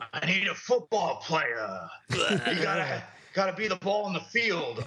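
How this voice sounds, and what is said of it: Terrible Al Pacino impression. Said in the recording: “Al Pacino from Any Given Sunday ... I'm doing this terrible impression.”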